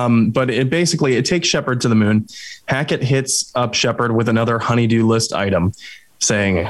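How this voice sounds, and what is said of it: Usual voice. Nothing is said of it.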